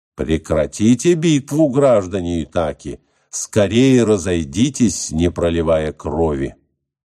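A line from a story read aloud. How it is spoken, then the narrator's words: Stern goddess shouting. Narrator (Russian): грозно крикнула богиня Афина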